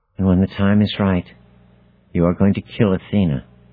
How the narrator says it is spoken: she says softly, and then, barely audible above the pounding of my heart

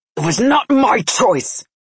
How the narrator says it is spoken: Nikolai shouted

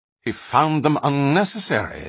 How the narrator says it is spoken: the other continued quickly

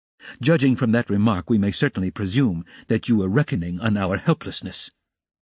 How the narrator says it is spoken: Dunya observed irritably

